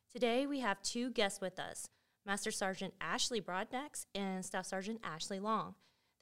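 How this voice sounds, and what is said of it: Polished professional radio voice. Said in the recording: “You sound real professional... it's my radio voice.”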